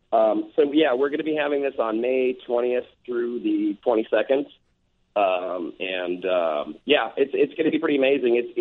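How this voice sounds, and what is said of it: Hoarse, worn-out voice. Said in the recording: “my voice is a little bit shot because I've been talking to so many people for the last couple of days”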